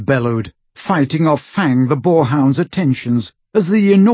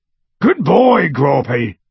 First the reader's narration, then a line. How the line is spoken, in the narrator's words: He bellowed, through the hole in the window